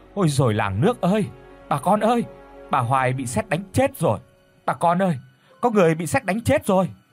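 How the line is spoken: Panicked shout. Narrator (Vietnamese): Có người liền hét lên

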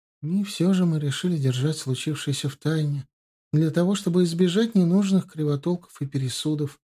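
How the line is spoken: Young woman, plain. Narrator (Russian): произнесла юная графиня

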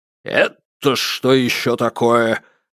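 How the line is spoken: Menacing question. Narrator (Russian): грозно осведомился

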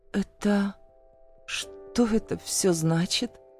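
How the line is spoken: Weak, disbelieving voice. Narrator (Russian): Слабым голосом выдаю я, все еще не веря своим глазам

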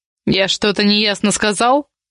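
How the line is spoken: Rough, spat out. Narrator (Russian): Грубо выплюнул Якубин

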